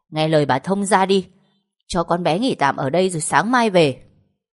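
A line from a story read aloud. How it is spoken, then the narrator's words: Snapping irritably. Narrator (Vietnamese): gắt lên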